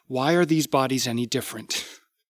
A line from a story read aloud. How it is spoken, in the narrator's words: He laughed bitterly